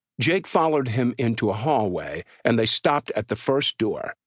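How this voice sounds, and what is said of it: Usual voice. Nothing is said of it.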